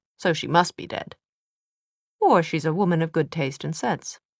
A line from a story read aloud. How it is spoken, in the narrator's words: he observed more brightly than he felt